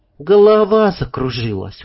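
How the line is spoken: Soothing yet plaintive. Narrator (Russian): успокаивающе, но в то же время жалобно объяснила

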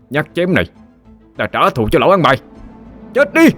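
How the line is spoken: Roaring through gritted teeth. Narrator (Vietnamese): Cậu nghiến răng ken két mà gầm lên

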